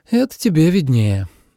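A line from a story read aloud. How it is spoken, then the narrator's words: Sighing woman. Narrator (Russian): вздохнула Машка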